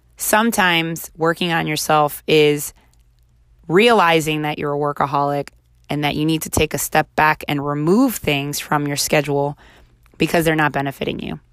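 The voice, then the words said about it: Raspy, hoarse voice. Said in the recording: “my voice is a little raspy because I had the flu and then it turned into laryngitis, and I'm just getting my voice back”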